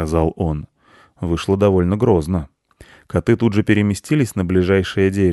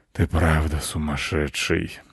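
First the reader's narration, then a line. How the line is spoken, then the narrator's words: Sighing. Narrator (Russian): вздохнул волк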